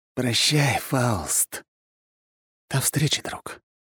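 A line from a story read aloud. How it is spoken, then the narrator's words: Whispered reply. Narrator (Russian): лишь шепнул я в ответ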